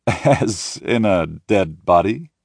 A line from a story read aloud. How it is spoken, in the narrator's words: He laughs into the phone